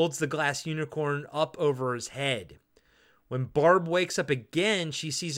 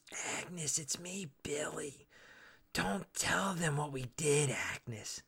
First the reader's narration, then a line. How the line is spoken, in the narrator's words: whispers